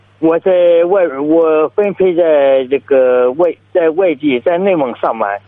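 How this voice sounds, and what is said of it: Heavy southwestern Shandong accent. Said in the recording (Chinese): “听出来了。……您这是哪里的口音啊？……鲁西南哦，您这还乡音还比较重”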